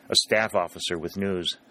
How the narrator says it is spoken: said Dalton

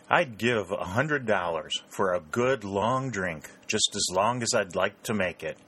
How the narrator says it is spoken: groaned

